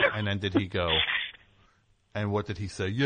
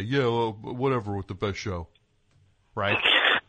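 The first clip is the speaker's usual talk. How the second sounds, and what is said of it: Cartoon turtle character voice. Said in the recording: “I don't know why I made him sound like that turtle from those Bugs Bunny”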